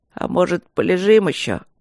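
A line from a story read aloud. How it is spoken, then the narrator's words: Sleepy question. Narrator (Russian): сонно спросил Рыжов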